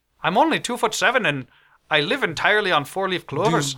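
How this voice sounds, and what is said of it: Thick put-on accent, deepening voice. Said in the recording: “Your accent is so thick, I didn't understand it. ... my voice has gotten deeper”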